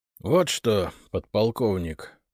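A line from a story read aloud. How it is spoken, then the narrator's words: Hoarse from long silence. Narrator (Russian): Его голос звучал хрипловато от долгого молчания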